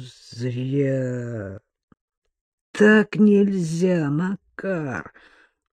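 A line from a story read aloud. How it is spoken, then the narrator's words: Heavy, drawn-out, disapproving. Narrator (Russian): тяжело опустился на стул и покачал головой, протянул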